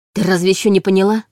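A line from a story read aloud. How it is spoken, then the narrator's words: Snapping retort. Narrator (Russian): огрызнулся Егор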